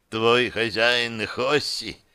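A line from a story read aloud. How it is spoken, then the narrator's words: Sad. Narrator (Russian): печально произносит менеджер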